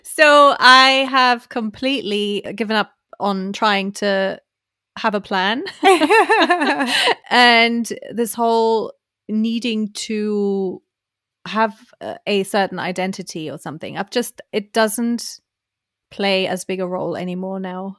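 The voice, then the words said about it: German accent in English. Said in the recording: “my accent is what it is... I'm from Germany”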